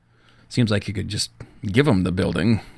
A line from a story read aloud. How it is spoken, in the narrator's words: Michael mumbled